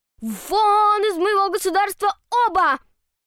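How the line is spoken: Angry emperor shouting. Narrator (Russian): крикнул рассерженный император

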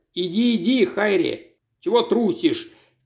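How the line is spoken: Shouted from crowd. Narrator (Russian): крикнули из толпы

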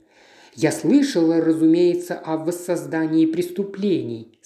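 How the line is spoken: Plain. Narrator (Russian): сказала она

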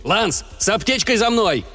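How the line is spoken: Barked. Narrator (Russian): рявкнул Григорий

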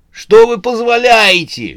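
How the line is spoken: Shrieking. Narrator (Russian): визжала смерть

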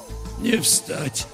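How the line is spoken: Weak voice after coughing. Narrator (Russian): слабым голосом договорил больной, прокашлявшись

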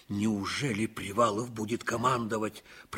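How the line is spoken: Muttered. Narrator (Russian): пробормотал Ливенцев

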